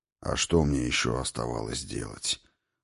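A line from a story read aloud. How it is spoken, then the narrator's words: Pained sigh. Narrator (Russian): вздохнул Хрофт, скривившись, как от сильной зубной боли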